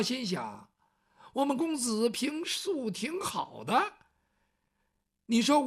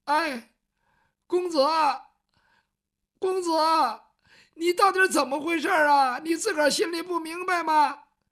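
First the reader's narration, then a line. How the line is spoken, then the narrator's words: Crying child. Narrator (Chinese): 雨墨这个时候哭了，他毕竟是个孩子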